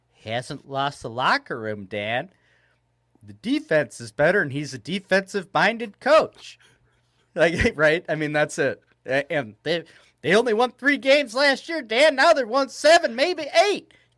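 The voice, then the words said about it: Put-on accent imitating another person. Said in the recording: “I don't know if that's know. How Kevin Warren speaks or if that's ... I'm not sure whose accent that was. ... that's one of the McCaskies.”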